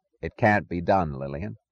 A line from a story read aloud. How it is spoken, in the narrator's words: he said firmly